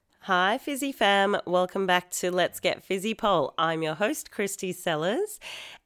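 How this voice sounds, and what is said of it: Hoarse, partly lost voice. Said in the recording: “I've slightly lost my voice”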